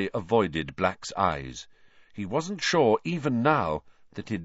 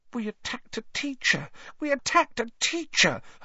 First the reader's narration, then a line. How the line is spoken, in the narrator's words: Hermione whimpered, staring at the lifeless Snape with frightened eyes